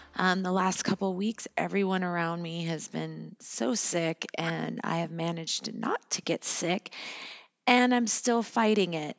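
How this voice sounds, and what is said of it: Slightly hoarse voice. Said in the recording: “my voice sounds a little hoarse ... this morning, I lost my voice, and it's come back a little bit”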